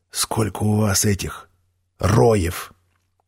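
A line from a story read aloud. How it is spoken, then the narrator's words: Very quiet whisper. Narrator (Russian): очень тихо прошептал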